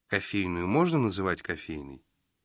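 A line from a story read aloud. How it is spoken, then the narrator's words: Hopeless sigh. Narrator (Russian): Джина безнадежно вздохнул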